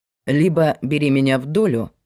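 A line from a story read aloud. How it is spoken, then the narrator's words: Plain. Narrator (Russian): сказал он ей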